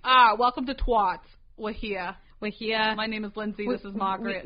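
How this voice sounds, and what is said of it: Put-on New England accent. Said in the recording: “Imagine if I did have a New England accent. I'd be like”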